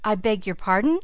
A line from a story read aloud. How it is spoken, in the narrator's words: stammered Philip Ammon